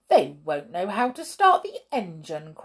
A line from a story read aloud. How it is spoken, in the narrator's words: cried